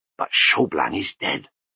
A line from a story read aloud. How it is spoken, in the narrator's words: murmured Lutzer